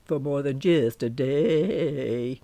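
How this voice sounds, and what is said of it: Sung Elvis-style impression. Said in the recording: “I did my renowned Elvis impersonation as I sang the last sentence.”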